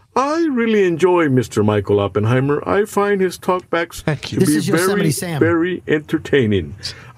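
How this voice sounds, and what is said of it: Accent like Yosemite Sam. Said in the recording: “That's Yosemite Sam. He has the same accent. ... He's got the same exact accent and inflection. ... Maybe his real voice is the Yosemite Sam, Foghorn Leghorn”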